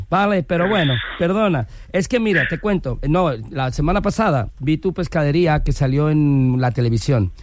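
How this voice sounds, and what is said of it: Put-on Galician Spanish accent. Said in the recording (Spanish): “pon acento galego. ... ya se me siente el acento gallego”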